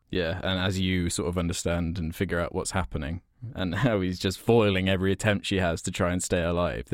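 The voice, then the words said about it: English accent. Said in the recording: “my English accent makes me sound like I'm just always miserable”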